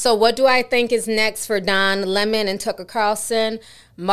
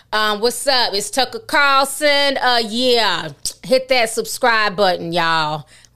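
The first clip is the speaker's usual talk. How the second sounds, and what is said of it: Put-on Black street-style voice. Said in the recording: “give him a black hood voice”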